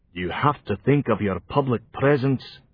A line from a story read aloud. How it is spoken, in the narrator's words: said Robert the Fox, gently